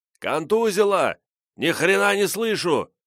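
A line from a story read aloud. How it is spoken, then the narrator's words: Shouting. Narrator (Russian): закричал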